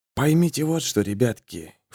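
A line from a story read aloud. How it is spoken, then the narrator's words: Low voice. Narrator (Russian): вполголоса сказал Берг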